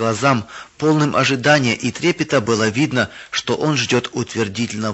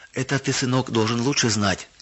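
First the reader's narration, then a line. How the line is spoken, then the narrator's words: Gentle, affectionate mother. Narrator (Russian): ласково сказала мама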